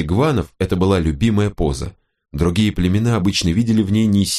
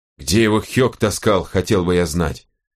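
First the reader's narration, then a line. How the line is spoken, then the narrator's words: Angry grumble. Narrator (Russian): зло буркнул Аптахар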